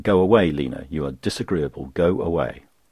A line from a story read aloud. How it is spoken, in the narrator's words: She then hit the table sharply and said